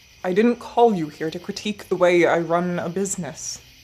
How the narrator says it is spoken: the man growled

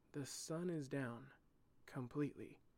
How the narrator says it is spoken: whispered Cairo

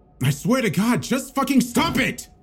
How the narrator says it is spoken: I yelled

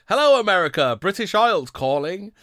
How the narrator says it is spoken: The announcer called out

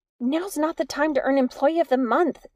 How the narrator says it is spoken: Nix screamed

